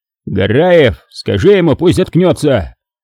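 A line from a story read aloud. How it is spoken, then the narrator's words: Shouted from a distance. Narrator (Russian): крикнул с брони ротный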